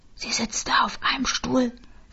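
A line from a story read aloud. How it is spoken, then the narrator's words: Whisper. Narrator (German): flüsterte Irene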